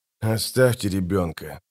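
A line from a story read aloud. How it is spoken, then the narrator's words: Said through gritted teeth. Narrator (Russian): процедил Геральт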